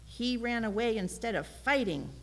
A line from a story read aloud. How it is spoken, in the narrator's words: Papa bellowed